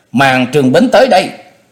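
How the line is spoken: Annoyed shout. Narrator (Vietnamese): Chu Lệ có chút ảo não, quay đầu lại quát

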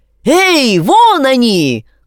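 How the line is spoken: Man's shout. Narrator (Russian): крикнул второй человек

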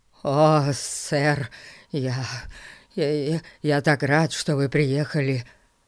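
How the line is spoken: Stammering mutter. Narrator (Russian): Заикаясь, пробормотал мистер Гун

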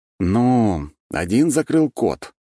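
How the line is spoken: Drawn-out drawl. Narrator (Russian): протянул я

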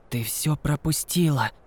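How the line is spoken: Whispered. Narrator (Russian): прошептал он

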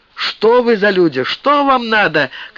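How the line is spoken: Frightened crowd shouting. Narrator (Russian): кричали перепуганные лебедевцы

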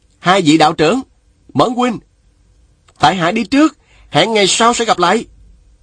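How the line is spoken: Loud young man. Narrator (Vietnamese): Chàng bèn lớn tiếng nói

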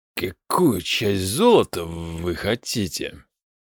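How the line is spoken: Reluctant, forced out. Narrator (Russian): Неохотно выдавил Аристобарк

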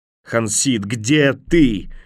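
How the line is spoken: Desperate yell. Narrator (Russian): отчаянно завопил

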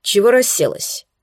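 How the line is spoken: Rather rude. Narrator (Russian): произнес он довольно грубо

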